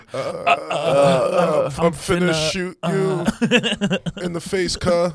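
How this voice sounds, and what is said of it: Gangster voice impression. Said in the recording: “do an impression of like a gangster”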